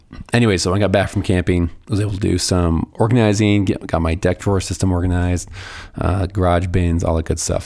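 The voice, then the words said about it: Hoarse, strained, fading voice. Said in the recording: “I'm literally losing my voice as we speak”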